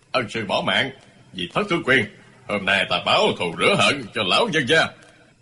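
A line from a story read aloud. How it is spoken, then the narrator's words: Sneering reply. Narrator (Vietnamese): Thành Côn cười khẩy đáp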